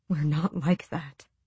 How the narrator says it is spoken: he whispered through his fingers

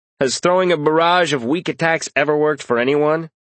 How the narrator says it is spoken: Karras sighed

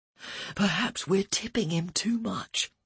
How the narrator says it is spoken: Ian whispered to Elaine

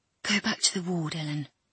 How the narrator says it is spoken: he whispered

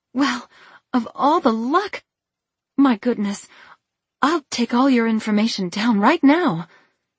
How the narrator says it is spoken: exclaimed

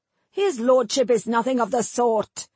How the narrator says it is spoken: Adarin snapped

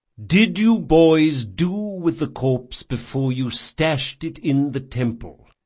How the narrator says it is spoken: said Chains, speaking slowly as though to a misbehaving pet

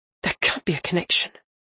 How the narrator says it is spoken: Varane muttered

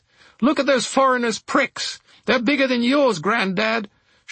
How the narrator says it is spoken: shouted a stout woman who must have been at least 80

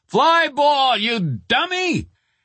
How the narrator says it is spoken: somebody yelled

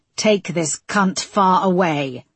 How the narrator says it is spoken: he spat through the driver's window

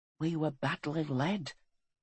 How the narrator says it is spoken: whispered Graham

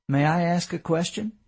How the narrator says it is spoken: David said quietly

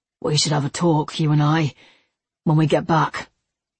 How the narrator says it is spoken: he said hoarsely

